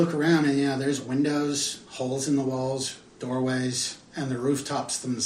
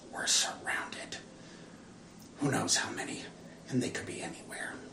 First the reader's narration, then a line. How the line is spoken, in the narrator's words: Mink quietly turns to you behind him and says